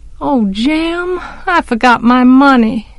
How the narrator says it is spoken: I sighed

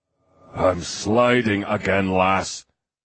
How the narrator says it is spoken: came the disgruntled growl from the seat beside her

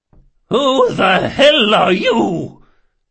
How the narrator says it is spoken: bellowed

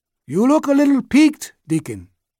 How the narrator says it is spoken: He called out

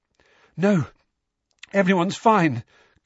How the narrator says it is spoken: gasped Harry, whose forehead felt as though it were on fire

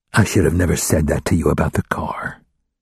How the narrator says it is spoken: he whispered

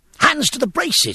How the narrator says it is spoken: he shouted

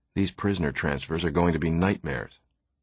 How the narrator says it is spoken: Farmer said in a low voice

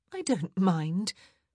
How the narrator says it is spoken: Edwina sighed

